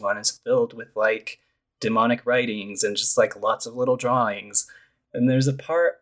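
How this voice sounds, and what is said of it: Usual voice. Nothing is said of it.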